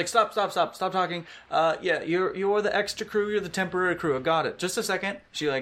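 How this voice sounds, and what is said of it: Usual voice. Nothing is said of it.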